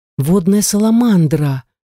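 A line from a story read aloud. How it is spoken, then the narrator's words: Amazed gasp. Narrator (Russian): пораженно выдохнула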